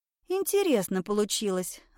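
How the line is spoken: Thoughtful. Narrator (Russian): задумчиво проговорила Марина

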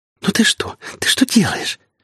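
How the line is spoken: Woman's loud, playful squealing whisper. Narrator (Russian): громко шептала и игриво повизгивала женщина

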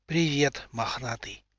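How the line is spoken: Dry-lipped whisper. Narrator (Russian): прошептал он сухими губами

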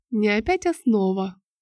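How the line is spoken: Aunt's tender cooing. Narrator (Russian): ласково заворковала тетя

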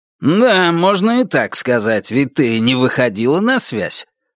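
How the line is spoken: Grumbling. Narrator (Russian): проворчал Добс

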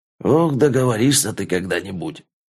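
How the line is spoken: Good-natured grumble, man. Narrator (Russian): беззлобно проворчал Митрич

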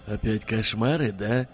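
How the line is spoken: Sympathetic husky bass. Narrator (Russian): сочувственно спросил сипловатый бас

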